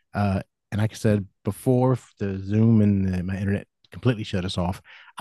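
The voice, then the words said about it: American country accent. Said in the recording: “it's coming out with a weird accent. That's just because I'm country ... even with a country accent”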